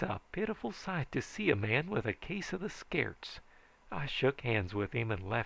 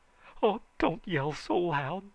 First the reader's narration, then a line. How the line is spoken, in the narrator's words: begged Blink